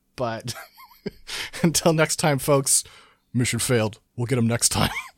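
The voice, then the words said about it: Imitates another person's voice. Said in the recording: “Great impression. ... That's my incredible accent.”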